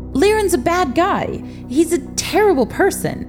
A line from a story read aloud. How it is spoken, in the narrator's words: Robert shouted over the chaos of the vampires and witches fighting the flames